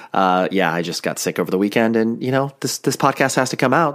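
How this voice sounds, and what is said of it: Deeper, nasal sick voice. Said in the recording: “my voice is noticeably deeper, it is because I am sick ... or maybe a little bit more nasally ... even if I am a little nasally”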